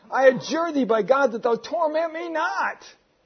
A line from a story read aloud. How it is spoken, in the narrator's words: cried out